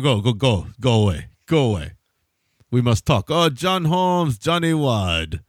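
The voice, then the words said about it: Impression of Eric Bogosian. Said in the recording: “Good Bogosian impression”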